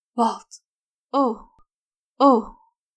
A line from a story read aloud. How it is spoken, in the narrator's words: she gasped again and again